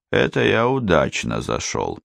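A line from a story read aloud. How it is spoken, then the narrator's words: Soft whistle, then quiet. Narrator (Russian): он присвистнул сквозь зубы и тихо произнес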